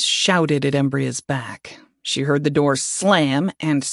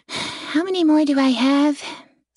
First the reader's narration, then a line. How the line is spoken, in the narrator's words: Celis sighed